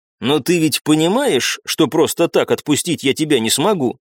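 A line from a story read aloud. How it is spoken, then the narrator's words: Plain. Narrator (Russian): спросил я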